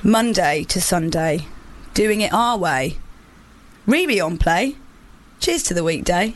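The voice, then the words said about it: Solemn, grave reading voice. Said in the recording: “in my most solemn voice”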